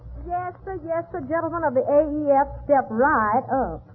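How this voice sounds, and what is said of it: Brooklyn talk with Texas accent. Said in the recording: “This girl talks Brooklyn with a Texas accent.”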